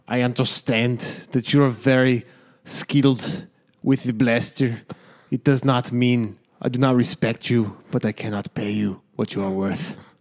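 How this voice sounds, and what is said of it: Werner Herzog documentary voice impression. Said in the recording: “good Werner Herzog impersonation. I'm going to do him doing his documentary voice ... It wasn't as good as usual. ... It's hard to do Werner Herzog on the spot.”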